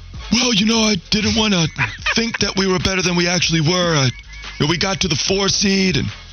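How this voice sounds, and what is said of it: Impression of Mitch Kupchak. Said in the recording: “Mitch Kupchak impersonation”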